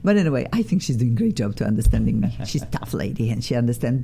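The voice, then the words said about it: Speaks English with a noticeable accent. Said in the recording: “learn my accent ... your accent's beautiful ... Cannot get rid of my accent”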